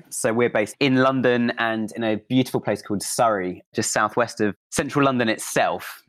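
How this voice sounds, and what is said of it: British accent. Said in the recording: “as you can probably tell from my accent, I'm based in the UK”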